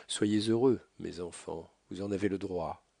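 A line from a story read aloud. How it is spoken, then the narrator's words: Poor father's heartbreaking tone. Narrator (French): dit ce pauvre père d'un ton déchirant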